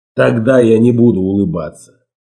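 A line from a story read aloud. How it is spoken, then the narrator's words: Calm reply. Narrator (Russian): ответил он спокойно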